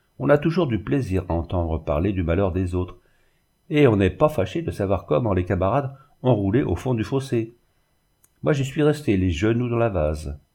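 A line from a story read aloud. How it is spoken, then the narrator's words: Sneering, snickering. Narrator (French): poursuivit le verrier en ricanant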